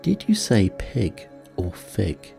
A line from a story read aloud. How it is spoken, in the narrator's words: said the cat